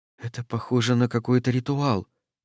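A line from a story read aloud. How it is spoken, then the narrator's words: Whisper. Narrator (Russian): прошептала она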